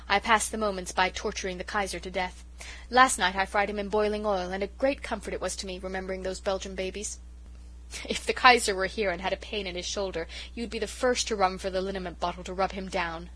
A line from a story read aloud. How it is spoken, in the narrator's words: laughed Miss Oliver